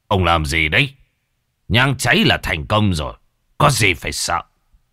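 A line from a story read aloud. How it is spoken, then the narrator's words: Snapped irritably. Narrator (Vietnamese): Đạo Tiểu gắt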